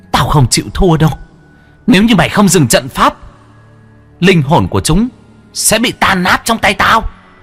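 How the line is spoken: Female ghost hissing. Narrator (Vietnamese): Nữ quỷ rít lên

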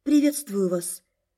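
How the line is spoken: Uncertain mumble. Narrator (Russian): Неуверенно пробормотала

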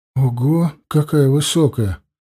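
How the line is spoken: Awed, fearful breath. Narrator (Russian): С почтением и страхом выдохнул Симах

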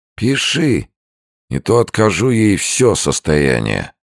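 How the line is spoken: Hoarse irritated grumble. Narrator (Russian): Джордж хрипло и раздраженно проворчал

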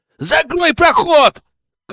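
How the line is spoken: Shouted. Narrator (Russian): крикнул

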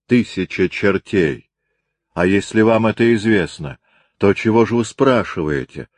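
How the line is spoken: Plain. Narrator (Russian): сказал арестант

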